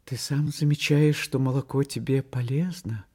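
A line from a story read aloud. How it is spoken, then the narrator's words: Guilty voice. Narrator (Russian): Таня сказала виноватым голосом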